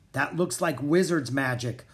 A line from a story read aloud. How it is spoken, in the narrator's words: Anna cried